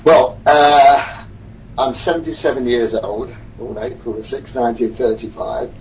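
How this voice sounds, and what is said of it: British accent. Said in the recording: “we hear a British accent”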